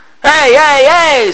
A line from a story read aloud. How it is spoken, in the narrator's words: slaves shouted